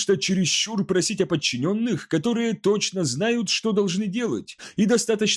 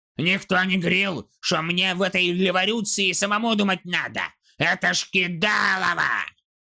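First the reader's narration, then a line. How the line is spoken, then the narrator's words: Frustrated growl. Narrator (Russian): Снагги зарычал от досады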